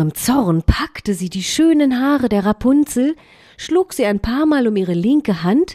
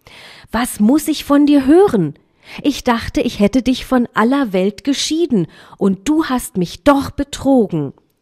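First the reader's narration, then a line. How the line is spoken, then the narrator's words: Called out. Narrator (German): rief die Zauberin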